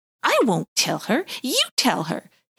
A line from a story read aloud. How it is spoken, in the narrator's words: hissed back Wonty